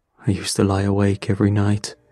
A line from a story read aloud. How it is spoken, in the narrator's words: he said